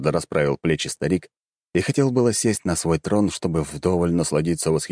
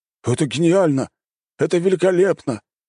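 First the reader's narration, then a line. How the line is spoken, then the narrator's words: Joyful admiring shouts. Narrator (Russian): стали радостно кричать, искренне восхищаясь своим правителем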